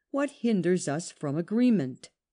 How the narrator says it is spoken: exclaimed

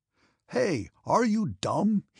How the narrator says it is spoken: he shouted

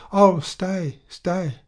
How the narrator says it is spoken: was seized with an illusion and cried out

